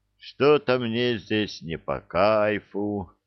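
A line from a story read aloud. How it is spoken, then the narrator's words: Drawling. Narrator (Russian): протянул Сизов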